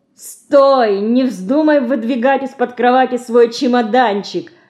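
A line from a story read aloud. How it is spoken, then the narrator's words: Loud laughter. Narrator (Russian): Громко расхохотался репетитор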